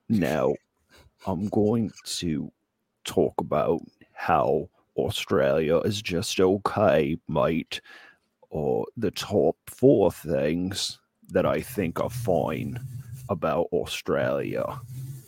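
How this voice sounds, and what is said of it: Put-on Australian accent. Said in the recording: “I think it's Australian, not Cockney you're looking for ... This is a spot-on Australian accent”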